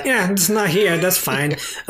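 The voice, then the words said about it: Made-up put-on accent. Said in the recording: “What was that accent? ... I just made it up off the top of my head.”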